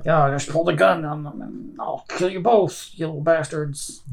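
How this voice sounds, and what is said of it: Put-on Cajun accent. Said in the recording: “That's my Cajun accent, by the way.”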